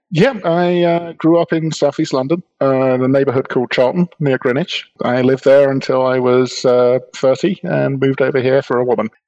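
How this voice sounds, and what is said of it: British English accent. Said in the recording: “you have a bit of a UK accent to your voice”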